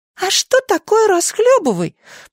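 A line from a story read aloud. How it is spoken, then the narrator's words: Squeaky chick voice. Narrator (Russian): пропищал цыплёнок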